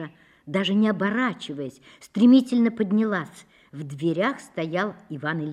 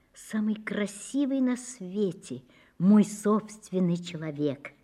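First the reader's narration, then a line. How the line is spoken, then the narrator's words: Quiet. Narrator (Russian): Даша сказала тихо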